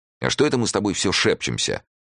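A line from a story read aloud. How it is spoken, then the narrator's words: Angry. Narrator (Russian): сердито сказал Эраст Петрович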